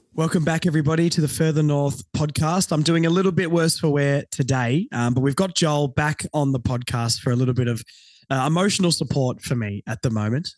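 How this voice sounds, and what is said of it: Croaky, under-the-weather voice. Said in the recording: “a little bit under the weather. So if my voice is croaky or I cough, I apologize in advance”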